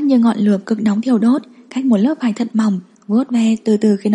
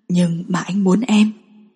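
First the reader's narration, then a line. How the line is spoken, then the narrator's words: Husky voice. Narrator (Vietnamese): giọng nói khàn khàn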